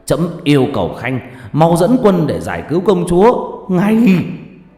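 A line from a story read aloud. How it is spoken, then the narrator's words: Angry king shouting. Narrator (Vietnamese): nhà vua tức giận quát lên với Lý Thông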